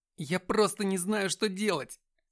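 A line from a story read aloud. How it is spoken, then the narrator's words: Sobbing. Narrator (Russian): всхлипнул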